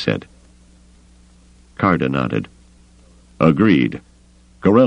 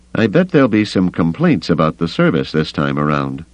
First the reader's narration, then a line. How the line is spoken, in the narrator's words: Avis said dryly